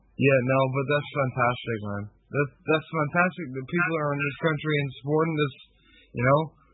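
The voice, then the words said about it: Irish accent. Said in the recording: “You sound like you got an Irish accent.”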